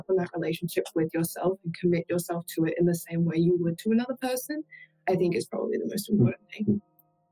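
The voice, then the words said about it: Australian accent. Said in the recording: “The accents come through... Americans love the Australian accent. You guys having the best accent.”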